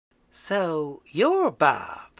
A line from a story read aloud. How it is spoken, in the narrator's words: Mary said sweetly